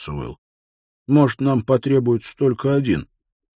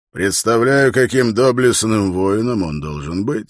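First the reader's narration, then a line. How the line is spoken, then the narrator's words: Snorted. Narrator (Russian): фыркнул Гундер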